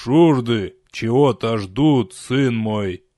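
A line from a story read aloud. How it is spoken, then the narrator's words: Old priest's creaky voice. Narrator (Russian): проскрипел святой отец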